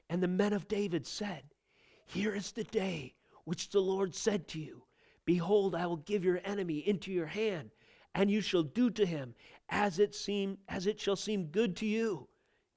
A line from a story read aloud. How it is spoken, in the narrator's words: You can imagine them whispering in the distance